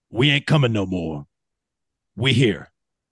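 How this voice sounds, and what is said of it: Imitates another person's voice. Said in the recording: “my Coach Prime impersonation ... It's not bad ... that was pretty good. I thought you were playing a recording for a second there.”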